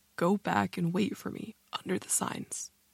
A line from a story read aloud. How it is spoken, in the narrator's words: said, calmly it seemed, but in a choked and croaking voice